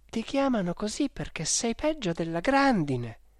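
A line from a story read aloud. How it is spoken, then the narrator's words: Exclaimed. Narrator (Italian): ha esclamato mia madre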